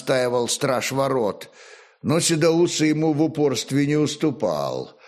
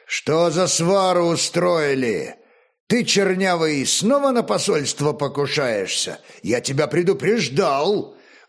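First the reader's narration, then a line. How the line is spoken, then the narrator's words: Menacing growl. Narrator (Russian): Грозно прорычал Олег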